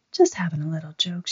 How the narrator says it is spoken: she whispered

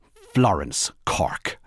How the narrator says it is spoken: said the woman firmly, all sleepy sweetness gone

